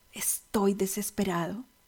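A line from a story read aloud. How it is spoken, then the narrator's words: Tearful, broken voice. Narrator (Spanish): Sus ojos se humedecieron y con voz quebrada me respondió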